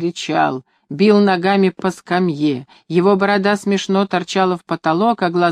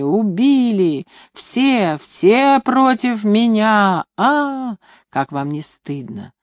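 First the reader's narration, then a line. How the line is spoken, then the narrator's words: Muffled mother's voice. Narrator (Russian): глухо звучал голос матери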